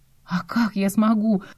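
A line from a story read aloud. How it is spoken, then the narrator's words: Confused mumble. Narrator (Russian): пробормотала, не зная, что думать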